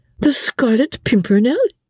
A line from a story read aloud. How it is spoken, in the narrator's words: said Suzanne, with a merry laugh